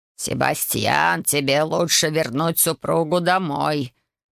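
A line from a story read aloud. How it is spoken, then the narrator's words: Cold metallic tone. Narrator (Russian): металлическим тоном произнес герцог Райт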